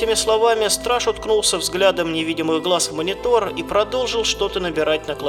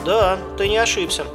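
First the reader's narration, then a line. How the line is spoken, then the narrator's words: Bored guard. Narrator (Russian): скучающим тоном произнес страж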